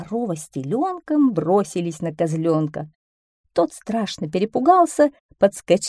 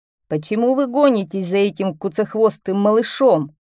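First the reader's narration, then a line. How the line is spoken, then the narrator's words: Deep bass voice. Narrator (Russian): пробасил бык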